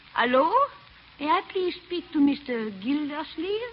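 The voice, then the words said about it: Imitated woman's foreign accent. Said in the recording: “Lady animal. Foreign accent. ... I'll act it out for you.”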